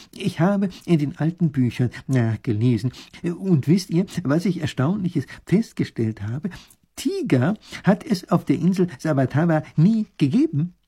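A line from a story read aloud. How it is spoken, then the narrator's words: Excited. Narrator (German): sagt er aufgeregt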